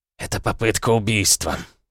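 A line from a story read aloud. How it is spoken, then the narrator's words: Secretary hissing. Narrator (Russian): шипел секретарь Орлова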